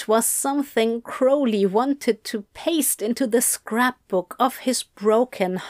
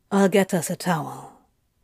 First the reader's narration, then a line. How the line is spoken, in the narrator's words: Crowley muttered